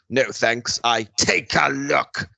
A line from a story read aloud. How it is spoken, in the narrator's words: Seeker snarled